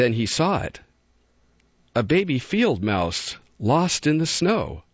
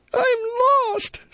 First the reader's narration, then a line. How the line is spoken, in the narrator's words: sobbed the little fellow